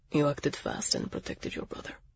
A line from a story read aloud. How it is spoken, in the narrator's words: he said softly, his lips almost touching my ear